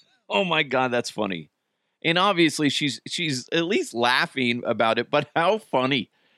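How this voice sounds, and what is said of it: Usual voice. Nothing is said of it.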